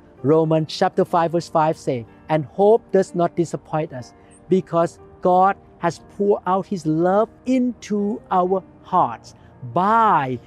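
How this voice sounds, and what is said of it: Non-native English accent. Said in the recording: “English is not my mother tongue language ... to really try to improve my English accent”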